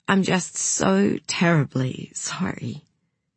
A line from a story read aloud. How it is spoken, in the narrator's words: said Celeste again, and her voice shook